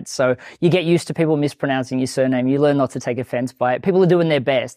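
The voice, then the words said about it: Australian accent. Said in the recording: “it's an Australian accent”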